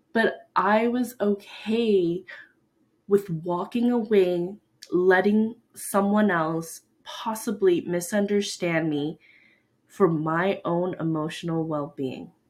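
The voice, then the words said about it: Emotional, choked-up voice. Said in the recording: “little emotional right now because you can probably hear it in my voice.”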